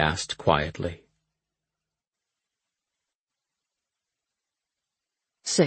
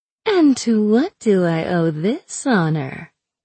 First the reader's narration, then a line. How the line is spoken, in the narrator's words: Einad drawled